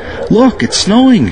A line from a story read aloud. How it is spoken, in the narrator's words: he cried out